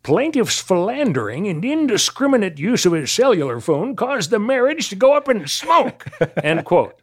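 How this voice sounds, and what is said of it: Crotchety old man voice. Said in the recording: “this is how he sounded ... this is a crotchety old Walter Brennan kind of guy ... That was a good impression”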